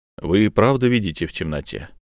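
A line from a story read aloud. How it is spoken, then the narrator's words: Quiet question. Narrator (Russian): тихо спросил он у Итиэль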